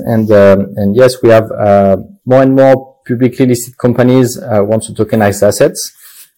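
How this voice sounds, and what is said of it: Heavy French accent in English. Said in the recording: “I am French, as you can see with my terrible accent”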